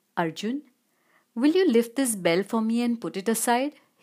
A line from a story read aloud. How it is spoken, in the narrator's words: asked